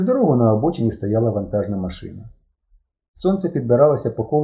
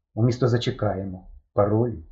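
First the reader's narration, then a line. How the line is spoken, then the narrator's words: Muttering. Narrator (Ukrainian): пробурмотів Степан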